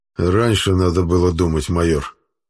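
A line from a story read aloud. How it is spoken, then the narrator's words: Through gritted teeth. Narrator (Russian): Сквозь зубы процедил Аббас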